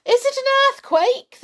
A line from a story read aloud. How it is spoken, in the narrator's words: they cried ... in fright